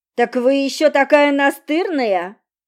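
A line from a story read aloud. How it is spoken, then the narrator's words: Deliberately loud, for onlookers. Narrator (Russian): намеренно говорил громко, привлекая общественность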